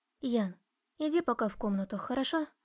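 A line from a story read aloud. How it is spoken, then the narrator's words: Whisper. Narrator (Russian): шепнула я дочери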